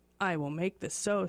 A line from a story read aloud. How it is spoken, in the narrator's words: said Glooskomba